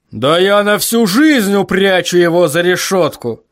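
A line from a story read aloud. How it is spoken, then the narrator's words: Growl. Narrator (Russian): прорычал Ваймс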